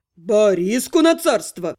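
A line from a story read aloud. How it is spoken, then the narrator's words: Barking, mock-heroic imitation. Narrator (Russian): Рявкнул Тёрн, подражая киногерою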